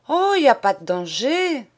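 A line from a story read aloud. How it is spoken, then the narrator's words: Exclaiming. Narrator (French): s'écrie-t-elle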